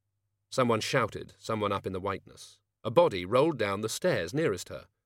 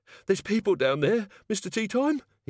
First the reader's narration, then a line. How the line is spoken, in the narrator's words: he wheezed